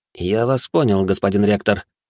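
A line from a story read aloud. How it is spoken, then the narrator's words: Gloomy reply. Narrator (Russian): мрачно ответил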